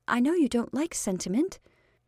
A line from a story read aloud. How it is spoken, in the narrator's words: she said timidly